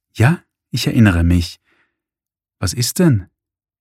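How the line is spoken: Reserved, unsure, fearful voice. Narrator (German): Die Stimme klang jetzt viel zurückhaltender, unsicher und ängstlich

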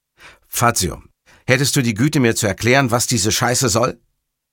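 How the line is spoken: Loud question. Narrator (German): fragte Montalbano laut

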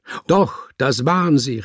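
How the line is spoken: Exclaiming. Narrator (German): rief er aus

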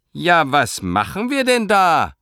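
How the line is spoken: Shouted. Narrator (German): schrie Frau Josephine

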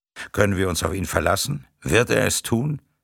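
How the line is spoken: Plain. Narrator (German): fragte Hassan

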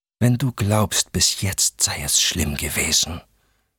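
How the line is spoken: Hissed. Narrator (German): zischte

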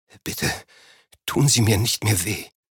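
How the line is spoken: Panting. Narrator (German): Er keuchte

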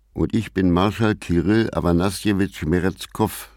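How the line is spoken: Plain. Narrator (German): sagte Alan

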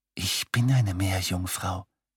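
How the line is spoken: Whispering woman. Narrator (German): flüsterte sie

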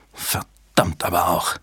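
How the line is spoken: Hissing. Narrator (German): zischte Fontaine

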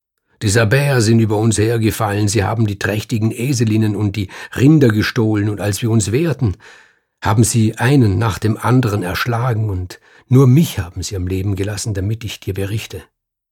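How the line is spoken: Calling out. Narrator (German): rief

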